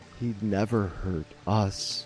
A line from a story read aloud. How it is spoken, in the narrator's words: added very gently